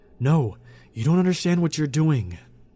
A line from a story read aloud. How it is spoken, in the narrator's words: I cried